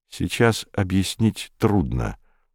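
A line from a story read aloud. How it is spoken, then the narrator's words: Gentle. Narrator (Russian): мягко ответил Комов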